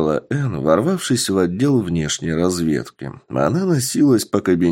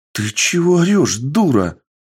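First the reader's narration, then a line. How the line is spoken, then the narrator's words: Alarmed exclamation. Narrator (Russian): воскликнула прибежавшая и очень встревоженная девушка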